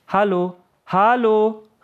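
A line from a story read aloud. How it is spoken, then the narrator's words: Calling after someone. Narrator (German): rief Yahya einer Kameradin nach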